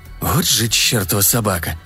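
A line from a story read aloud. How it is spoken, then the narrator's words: Muttered. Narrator (Russian): пробормотал он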